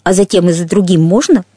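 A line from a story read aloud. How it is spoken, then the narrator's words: Plain. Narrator (Russian): спросила Анна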